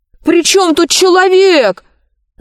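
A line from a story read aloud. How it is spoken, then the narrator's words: Yelled. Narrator (Russian): завопил Пашка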